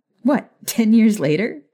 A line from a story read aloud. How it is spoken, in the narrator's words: She asked with a chuckle